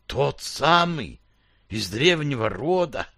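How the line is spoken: Whisper. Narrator (Russian): прошептал

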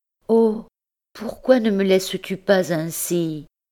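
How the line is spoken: Sighed. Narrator (French): soupira-t-elle

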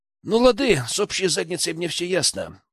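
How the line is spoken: Sighing. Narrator (Russian): вздохнул я

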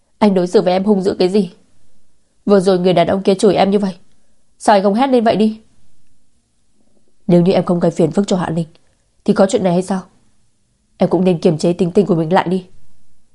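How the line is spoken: Shouted. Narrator (Vietnamese): Chu Phương Hoa cũng dừng lại và hét lên

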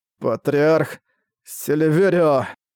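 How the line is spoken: Hoarse wheeze. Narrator (Russian): Прохрипел Фушта

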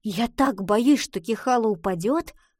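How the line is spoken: Plain. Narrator (Russian): сказала Гретхен

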